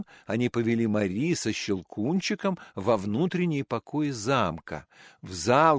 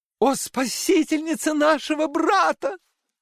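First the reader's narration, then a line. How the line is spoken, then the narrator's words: Women exclaiming together. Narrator (Russian): воскликнули все 4 дамы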